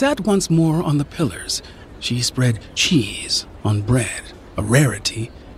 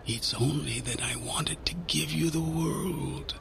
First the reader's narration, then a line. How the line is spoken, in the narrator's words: she whispered to me